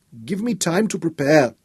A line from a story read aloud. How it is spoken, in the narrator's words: pleaded